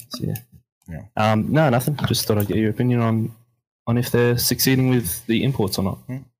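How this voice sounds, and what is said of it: Australian or New Zealand accent. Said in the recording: “calling in all the way from Oceania ... Thanks for gracing our ears with your accent.”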